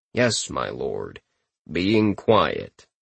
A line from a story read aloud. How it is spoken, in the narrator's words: he heard in a deadpan tone